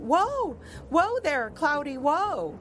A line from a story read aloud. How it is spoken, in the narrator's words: He cried out